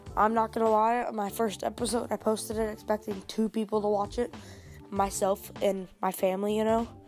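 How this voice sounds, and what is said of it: Dry, congested voice. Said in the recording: “I have a cold, my throat is a little dry”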